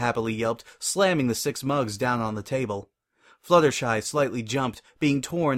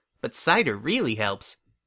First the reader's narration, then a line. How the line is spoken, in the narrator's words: Pinkie chuckled